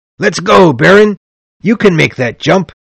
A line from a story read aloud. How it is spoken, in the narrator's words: Blantyre cried to me